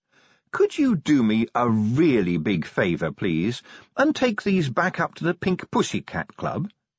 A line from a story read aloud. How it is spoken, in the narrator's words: she said sweetly